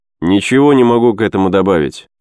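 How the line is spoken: Dry. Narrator (Russian): сухо отвечал Ген Стратов своим сокамерникам

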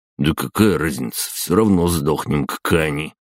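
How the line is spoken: Grumbling. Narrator (Russian): проворчал он

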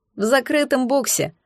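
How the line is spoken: Snort. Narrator (Russian): хмыкнул

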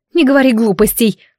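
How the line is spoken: Dismissive snort. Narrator (Russian): фыркнула она

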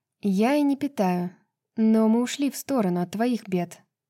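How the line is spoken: Sighing. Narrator (Russian): королева вздохнула

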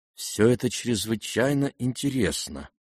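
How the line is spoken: Extremely quiet. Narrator (Russian): произнес князь ужасно тихо

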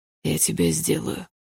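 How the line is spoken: Low muffled voice. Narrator (Russian): пообещал Лайм глухим голосом

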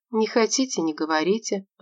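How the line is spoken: Sighing. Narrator (Russian): вздохнула она

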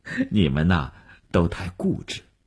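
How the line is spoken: Light smile. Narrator (Chinese): 吴晓笑了笑说

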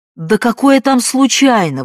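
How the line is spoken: Exclaimed. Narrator (Russian): воскликнул

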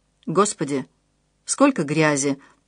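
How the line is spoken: Quiet whisper. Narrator (Russian): тихо прошептал Альфред

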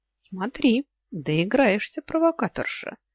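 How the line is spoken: Cheerful offhand remark. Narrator (Russian): весело обронил

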